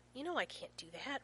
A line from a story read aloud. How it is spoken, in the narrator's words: Rodney hisses